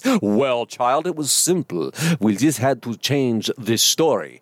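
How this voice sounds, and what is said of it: Imitates another person's voice. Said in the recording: “That was a lame Klaus Schwab impersonation”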